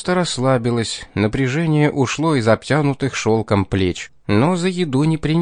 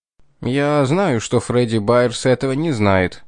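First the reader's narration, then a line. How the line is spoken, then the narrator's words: Dry reply. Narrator (Russian): сухо ответил Бренди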